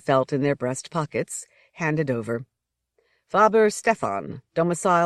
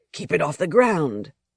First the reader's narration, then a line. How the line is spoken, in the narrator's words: Casimir said in a sharp voice